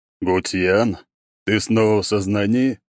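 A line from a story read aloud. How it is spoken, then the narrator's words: Booming drone. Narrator (Russian): прогудел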